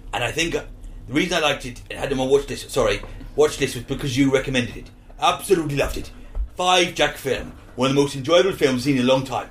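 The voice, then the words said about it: Deliberately bad Welsh accent. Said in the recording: “I'm doing it in Welsh now. I'm doing it in a bad Welsh accent.”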